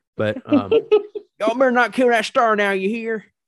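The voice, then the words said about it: Country accent impression of Amanda Waller. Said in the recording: “I don't know why she has a country accent”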